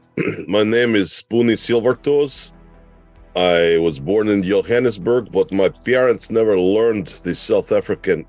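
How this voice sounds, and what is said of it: Put-on Russian accent. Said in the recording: “So I learned the Russian accent”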